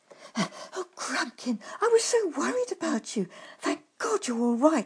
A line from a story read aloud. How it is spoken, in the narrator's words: he exclaimed